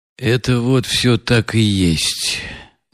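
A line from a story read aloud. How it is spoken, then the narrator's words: Gloomy sullen confirmation. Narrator (Russian): мрачно и насупившись, подтвердил Рогожин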